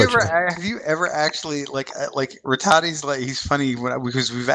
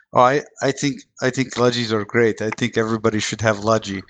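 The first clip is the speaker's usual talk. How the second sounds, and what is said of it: Thick Russian-sounding put-on accent. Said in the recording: “That is a thick accent ... most of my European accents generally fall back to like a Russian accent, which is horrendous”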